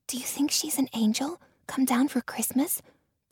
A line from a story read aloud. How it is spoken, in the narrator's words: Bridie whispered to me